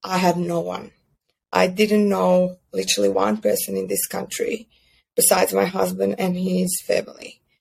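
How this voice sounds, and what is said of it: Non-native English accent. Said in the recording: “My English wasn't that good. Like, I still have accent and it's not the best”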